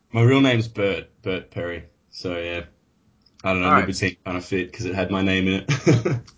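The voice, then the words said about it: Australian accent. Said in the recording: “You sound a little different ... it's a good trip to Australia and kept the accent ... Of course, this is my Australian friend”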